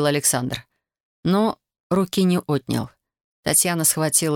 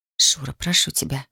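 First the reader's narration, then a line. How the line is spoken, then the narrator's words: Whispered. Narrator (Russian): прошептала она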